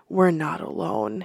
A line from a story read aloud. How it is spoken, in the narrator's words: he whispered